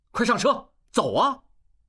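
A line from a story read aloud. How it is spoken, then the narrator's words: Shout. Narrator (Chinese): 应济 喊一声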